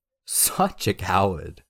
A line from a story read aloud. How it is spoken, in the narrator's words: Felix laughed